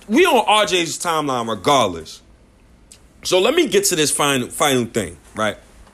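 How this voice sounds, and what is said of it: Screaming, loud heated speech. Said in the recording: “I know I'm screaming. I'm cursing.”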